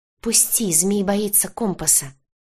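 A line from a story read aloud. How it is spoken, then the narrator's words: Struggling hiss. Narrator (Russian): прошипела я, вырываясь из лап своего стража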